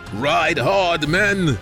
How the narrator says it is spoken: shouted

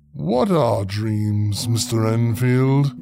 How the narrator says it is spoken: he asked with a sigh

